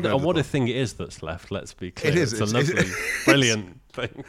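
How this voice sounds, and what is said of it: Usual voice. Nothing is said of it.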